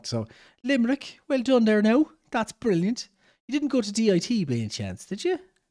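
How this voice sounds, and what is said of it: Attempted Irish regional accent. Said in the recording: “Can't do a Limerick accent. That was a Cork accent, wasn't it?”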